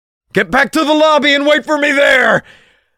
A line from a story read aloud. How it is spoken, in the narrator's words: I shouted